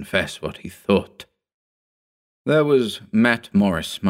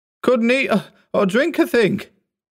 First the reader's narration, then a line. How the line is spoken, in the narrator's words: cried